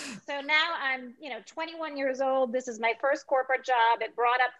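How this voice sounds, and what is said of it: Usual voice. Nothing is said of it.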